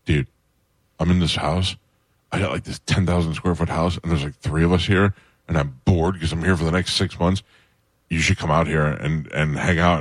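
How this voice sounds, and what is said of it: Urgent whisper imitating another person. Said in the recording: “You do a good Kreischer whisper ... 80% of your conversation will be in a whisper ... It's like a whisper with urgency, though.”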